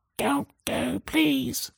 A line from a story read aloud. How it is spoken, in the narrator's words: a small, squeaky, broken voice whispering the words